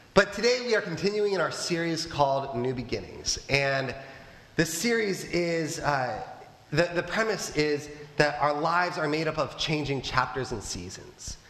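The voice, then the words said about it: Sick, under-the-weather voice. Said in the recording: “as you can probably tell by my voice, I am a little under the weather”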